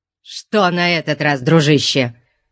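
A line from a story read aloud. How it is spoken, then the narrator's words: Irritated exclamation. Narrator (Russian): раздраженно воскликнул Деметрио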